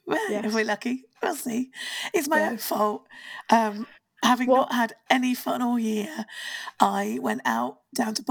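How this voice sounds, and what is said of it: Hoarse, nearly lost voice. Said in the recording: “I've lost my voice.”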